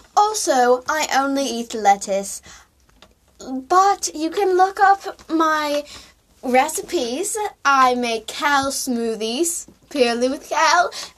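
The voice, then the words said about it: Put-on British accent. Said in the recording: “I'm not sure how I developed a British accent, but I did.”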